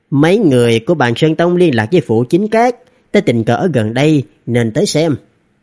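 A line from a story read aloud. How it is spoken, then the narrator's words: Gentle, smiling. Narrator (Vietnamese): Phương Đàm với cái vẻ mặt ôn hòa mỉm cười nói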